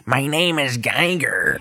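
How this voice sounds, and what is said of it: Imitates another person's voice. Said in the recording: “my Willem Dafoe impression”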